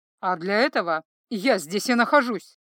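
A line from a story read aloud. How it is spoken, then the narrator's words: Through gritted teeth. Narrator (Russian): процедил Торинель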